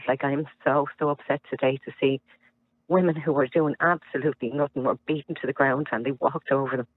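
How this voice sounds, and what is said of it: Shaken, upset, traumatized-sounding voice. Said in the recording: “I can hear it in your voice. You're actually traumatized by the whole thing. I can hear it in your voice.”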